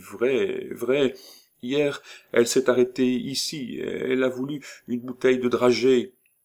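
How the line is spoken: Stammered. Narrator (French): balbutia Lily

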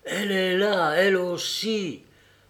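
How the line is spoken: Wretched woman's exclamation. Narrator (French): s'exclama la misérable

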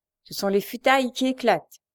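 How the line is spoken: Sneering laugh. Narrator (French): ricana Frochard

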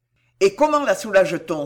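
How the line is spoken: Exclaiming. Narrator (French): s'écria-t-il

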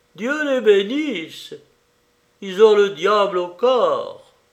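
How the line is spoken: Exclaiming. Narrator (French): Frère Hildebert s'écria

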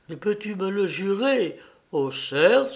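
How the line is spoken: Exclaiming. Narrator (French): s'écria Modeste

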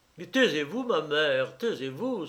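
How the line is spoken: Exclamation. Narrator (French): s'écria Gamelin

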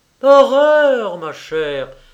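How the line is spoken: Exclaimed with strong revulsion. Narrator (French): s'écria la doctoresse avec l'accent de la plus vive répulsion

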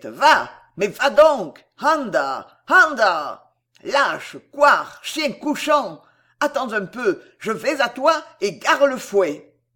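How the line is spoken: Shouting at top of lungs. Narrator (French): criait-il à tue-tête

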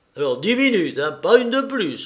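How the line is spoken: Shouted. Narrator (French): leur cria Lupin

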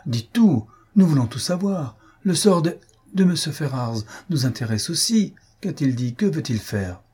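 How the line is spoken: Urgent exclamation, woman. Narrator (French): s'écria Elinor

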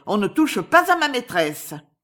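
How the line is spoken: Shouting. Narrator (French): cria-t-elle

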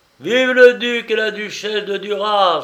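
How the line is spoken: Crowd cheering. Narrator (French): s'écria la foule

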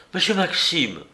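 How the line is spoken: Exclaimed. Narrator (French): s'écria-t-elle

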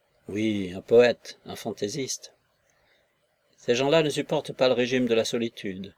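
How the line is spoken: Contemptuous declaration. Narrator (French): déclara Novodvorov d'un ton méprisant

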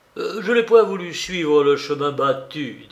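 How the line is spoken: Muffled low voice. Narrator (French): dit-il d'une voix sourde

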